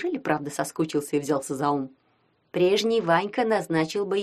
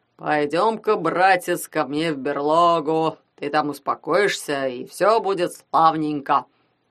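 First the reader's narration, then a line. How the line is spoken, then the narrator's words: Low booming drone. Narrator (Russian): прогудел он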